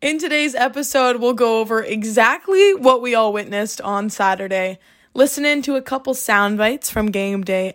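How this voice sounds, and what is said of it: Strained, mostly lost voice. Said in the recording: “I'm still recovering from Saturday. My voice is kind of gone, actually”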